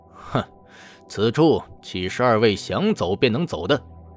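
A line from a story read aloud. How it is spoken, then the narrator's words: Cold laugh. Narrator (Chinese): 赵云冷声一笑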